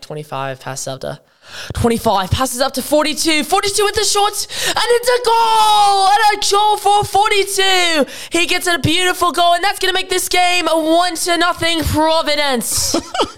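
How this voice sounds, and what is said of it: Put-on British commentator accent. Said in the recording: “that is the worst British accent I've ever heard... my British accent... it's okay”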